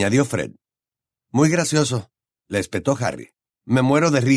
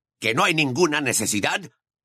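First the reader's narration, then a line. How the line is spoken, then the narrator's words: Growled. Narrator (Spanish): gruñó Moody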